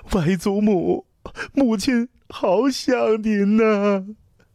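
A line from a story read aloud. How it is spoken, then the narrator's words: Sobbing. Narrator (Chinese): 刘怀 大哭道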